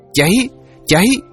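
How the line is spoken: Shrill piercing women's screams. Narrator (Vietnamese): tiếng tré inh ỏi của hai giọng nữ the thé lanh lảnh

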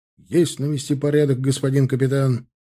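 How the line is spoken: Barked. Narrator (Russian): рявкнул Тимофей

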